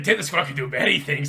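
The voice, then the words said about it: Cartoon mad-scientist character voice. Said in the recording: “your dip the squirrel sounded like Doofenshmirtz ... I'd try and do the voice ... why are you doing this voice?”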